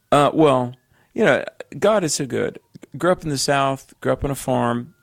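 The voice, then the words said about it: Very strong Southern American accent. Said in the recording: “I've got a Southern accent that would make Jed Clampett blush ... The Beverly Hillbillies would probably listen to my voice and say, wow, that guy is really Southern.”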